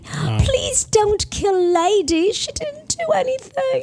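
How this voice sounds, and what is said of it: Put-on British accent. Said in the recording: “No, that was very good. I cannot do a proper British accent.”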